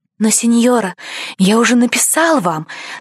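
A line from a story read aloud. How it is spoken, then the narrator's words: Hurried nervous whisper, boy. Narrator (Russian): торопливо прошептал мальчик, боясь потерять мужество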